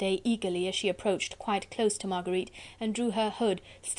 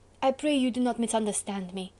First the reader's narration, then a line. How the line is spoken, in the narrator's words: pleaded Candeille eagerly